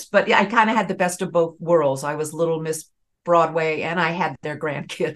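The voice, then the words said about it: Southern American accent. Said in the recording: “Talking to you, I hear the Southern accent.”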